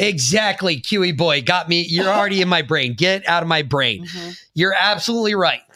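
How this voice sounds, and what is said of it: Usual voice. Nothing is said of it.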